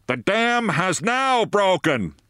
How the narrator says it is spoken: the soldiers were bellowing

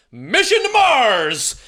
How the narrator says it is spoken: He yelled

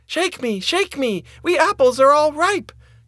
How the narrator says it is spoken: cried the tree

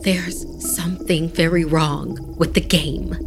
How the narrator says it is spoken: she said in a hushed tone

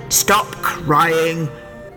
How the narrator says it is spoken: growled the highwayman

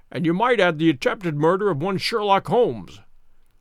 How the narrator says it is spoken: remarked my friend with a chuckle

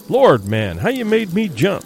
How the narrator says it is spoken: he exclaimed

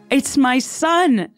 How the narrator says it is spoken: cried

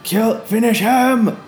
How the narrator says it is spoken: One of them shouts out

